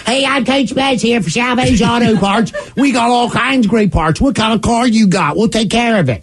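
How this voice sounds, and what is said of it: Thick Baltimore accent impression. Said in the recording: “In the thickest Baltimore accent you've ever heard in your life ... That's exactly what he sounded like.”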